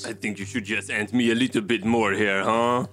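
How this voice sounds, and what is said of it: Put-on French accent. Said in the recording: “go back to France and learn how to speak properly ... I am always using my French accent because the ladies love it.”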